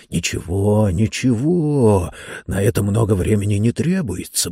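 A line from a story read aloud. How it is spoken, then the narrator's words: Muttering. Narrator (Russian): бормотал он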